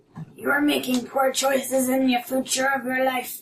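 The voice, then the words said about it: Disguised voice with put-on accent. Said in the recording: “I'm gonna try to disguise my voice again. ... I love the accent.”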